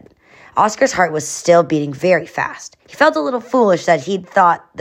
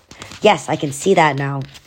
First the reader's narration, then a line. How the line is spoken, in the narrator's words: Oscar mumbled